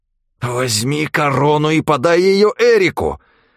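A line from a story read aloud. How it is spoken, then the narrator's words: Angry hiss. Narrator (Russian): злобно прошипел Джулиан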